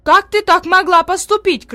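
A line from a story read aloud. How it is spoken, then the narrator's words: Shouting. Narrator (Russian): кричала одна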